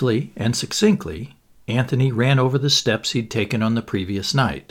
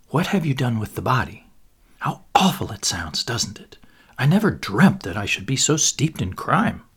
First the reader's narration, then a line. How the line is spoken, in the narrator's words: she lowered her voice